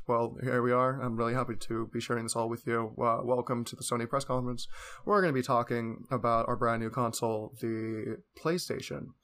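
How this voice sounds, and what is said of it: Flat monotone voice. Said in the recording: “very monotone voice ... long, boring talk”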